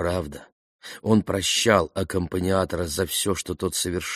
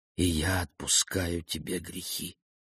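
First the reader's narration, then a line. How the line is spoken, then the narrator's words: Heartfelt priest's whisper. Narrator (Russian): Священник от всего сердца прошептал в мертвенно-белое ухо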